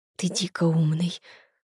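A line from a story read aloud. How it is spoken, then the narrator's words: Whispered. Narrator (Russian): прошептала Улька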